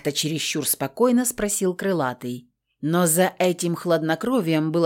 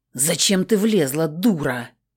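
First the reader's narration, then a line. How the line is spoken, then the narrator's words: Hiss from afar. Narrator (Russian): Зашипела на меня Картер со своего места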